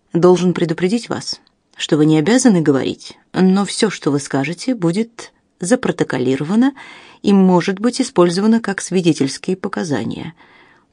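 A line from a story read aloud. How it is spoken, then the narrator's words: Calm. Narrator (Russian): произнес Робинсон спокойно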